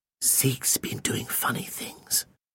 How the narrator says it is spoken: he whispered

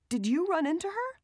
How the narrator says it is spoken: The woman, asked excitedly

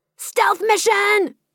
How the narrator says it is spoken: He shouted

